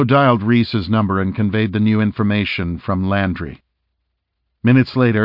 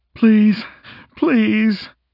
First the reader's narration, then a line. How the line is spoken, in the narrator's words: Landry pleaded